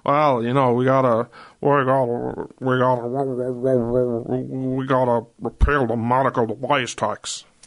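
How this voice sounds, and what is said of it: Mitch McConnell impression. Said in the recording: “Actually, that wasn't a bad impression. ... It is Mitch McConnell.”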